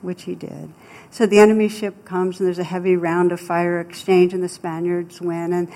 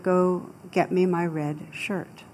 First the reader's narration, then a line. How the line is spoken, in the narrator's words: the captain very calmly said to the soldier